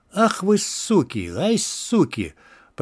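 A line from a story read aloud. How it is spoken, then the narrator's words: Moaning in pain. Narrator (Russian): Подтекая алым стонал торгаш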